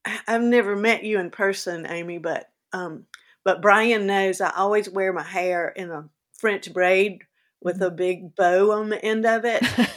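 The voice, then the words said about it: Southern American accent. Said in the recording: “I have my Southern accent”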